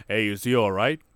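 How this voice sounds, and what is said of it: Imitates another person's accent. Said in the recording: “I gave him that accent ... in his accent”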